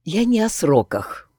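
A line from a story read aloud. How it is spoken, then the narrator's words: Tired sigh. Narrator (Russian): устало вздохнула Эллисон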